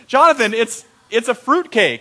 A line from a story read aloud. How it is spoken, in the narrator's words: my mom's just giggling, and she goes